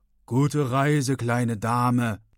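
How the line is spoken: Uncle's thundering voice. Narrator (German): donnert der Onkel

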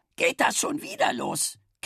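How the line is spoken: Croaking. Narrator (German): krächzte die Zündreibe

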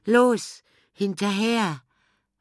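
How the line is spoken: Call. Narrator (German): rief Bela

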